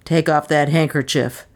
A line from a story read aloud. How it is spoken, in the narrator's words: barked the unknown